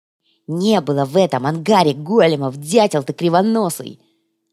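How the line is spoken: Angry curt retort. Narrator (Russian): Зло бросил натуго

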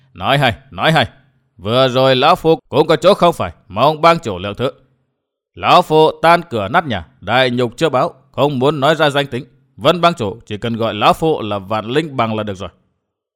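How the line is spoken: Old man, laughing loudly. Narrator (Vietnamese): Hoàng Diện lão nhân cười lớn nói

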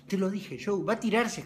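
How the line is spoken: Exclaiming. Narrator (Spanish): exclamó Pete

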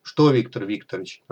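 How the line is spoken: Irritated question. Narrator (Russian): раздраженно вопросил Зубов

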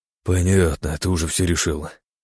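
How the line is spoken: Sighing. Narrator (Russian): вздохнул Илья

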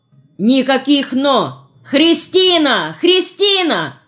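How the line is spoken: Loud yelling. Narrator (Russian): Я так вопил

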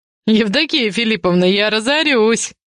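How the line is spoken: Speaking through laughter. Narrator (Russian): Сквозь смех говорит Макс

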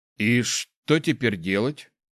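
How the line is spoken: Bewildered question. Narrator (Russian): растерянно спросил

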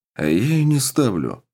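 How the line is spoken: Calm reply. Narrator (Russian): спокойно ответил

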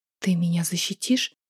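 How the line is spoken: Whisper, forced smile. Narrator (Russian): прошептала я, пытаясь улыбнуться

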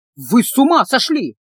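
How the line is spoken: Shouting. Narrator (Russian): кричал Калабриан

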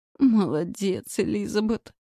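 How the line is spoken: Groan. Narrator (Russian): простонала

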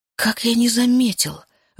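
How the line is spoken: Breathless exhale. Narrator (Russian): выдохнул он

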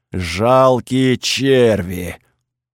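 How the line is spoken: Muffled creaky bass boom. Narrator (Russian): прогудел из шлема скрипучим басом

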